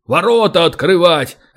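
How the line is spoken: Gruff bark. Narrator (Russian): рявкнул гном

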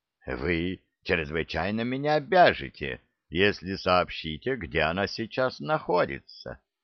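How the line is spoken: Calm objection. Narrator (Russian): спокойно возразил Питерс

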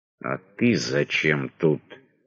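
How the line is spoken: Sinister hiss. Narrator (Russian): зловеще прошипел Радзянко

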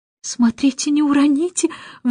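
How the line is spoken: Anxious, agitated. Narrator (Russian): взволнованно сказала миссис Брилл

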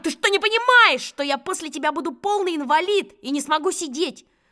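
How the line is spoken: Shout. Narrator (Russian): Я прямо заорал

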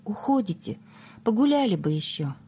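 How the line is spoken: Sad, wistful question. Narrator (Russian): билетный контролер с тоской печально спросил

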